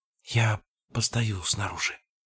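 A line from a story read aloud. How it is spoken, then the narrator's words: Whisper. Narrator (Russian): прошептала она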